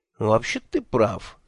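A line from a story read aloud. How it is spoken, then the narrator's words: Thoughtful agreement. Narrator (Russian): задумчиво согласился Мелифаро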